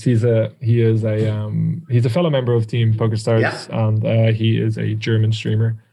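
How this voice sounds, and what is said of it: Irish accent. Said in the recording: “I find the Irish accent very charming.”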